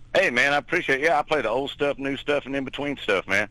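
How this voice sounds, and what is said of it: Texan accent. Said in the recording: “the Texan in Texas ... Something about that accent actually makes me feel like it's warm outside”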